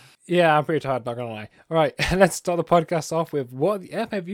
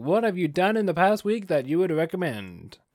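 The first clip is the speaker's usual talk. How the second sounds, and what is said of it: Put-on American accent. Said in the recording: “Don't know why I did an American accent.”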